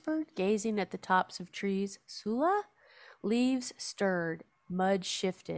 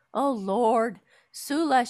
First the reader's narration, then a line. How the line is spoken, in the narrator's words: she cried